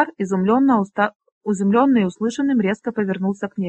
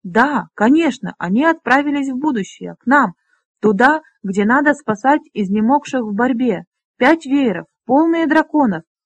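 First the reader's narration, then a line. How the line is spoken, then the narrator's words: Excited. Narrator (Russian): Повторила Лесса взволнованно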